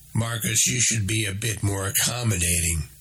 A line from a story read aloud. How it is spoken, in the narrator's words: Manny said